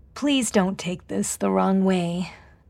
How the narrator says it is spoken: drawled as she inhaled

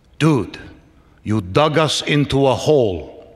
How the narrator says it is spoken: Hyman grumbled

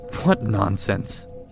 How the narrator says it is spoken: I scoffed

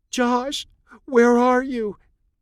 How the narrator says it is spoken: Chloe asked through wet sobs

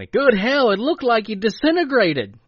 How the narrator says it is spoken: Dwayne exclaimed

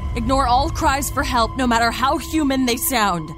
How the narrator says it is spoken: shouted Alex's dad

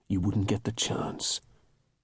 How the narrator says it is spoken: he said, lowering his voice

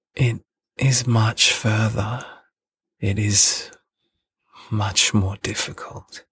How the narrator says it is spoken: sadly

